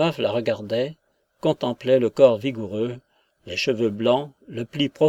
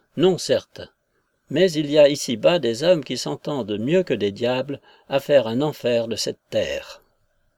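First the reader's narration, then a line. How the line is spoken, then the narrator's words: Curt muttered retort. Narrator (French): riposta sèchement, en continuant entre ses dents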